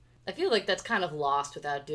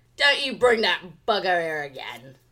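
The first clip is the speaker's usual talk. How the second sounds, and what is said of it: Put-on Cockney accent. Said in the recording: “doing it in a Cockney accent”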